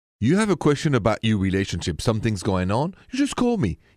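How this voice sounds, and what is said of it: French-accented English. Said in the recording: “I would like you to go to Paris where I'm from ... That's where I'm from, the accent and everything.”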